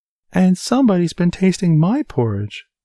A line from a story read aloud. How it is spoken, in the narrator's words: squealed the baby bear